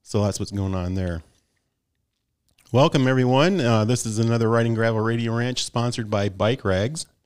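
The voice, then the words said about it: Congested voice from a cold. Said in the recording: “apologize for my voice because I'm coming off a head cold, so I may sound a little different”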